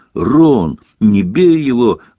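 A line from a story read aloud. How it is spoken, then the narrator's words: Reproachful girl's exclamation. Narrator (Russian): воскликнул с укором девчачий голос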